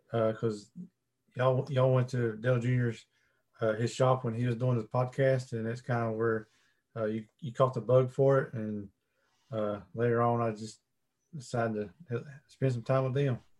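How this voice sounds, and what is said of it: Southern twang accent. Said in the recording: “I could hear the twang. ... It's definitely got a southern tone.”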